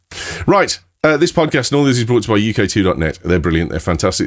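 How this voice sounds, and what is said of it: Slight Birmingham (Brummie) accent. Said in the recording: “a slight Brummy accent”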